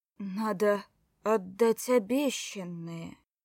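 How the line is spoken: Deathly voice. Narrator (Russian): Мертвенным голосом вдруг сказал Вовка

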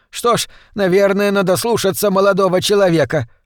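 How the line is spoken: Shouted in someone's face. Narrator (Russian): прокричала миссис Шефер в лицо мужу

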